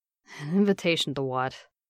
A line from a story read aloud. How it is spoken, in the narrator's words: he mumbled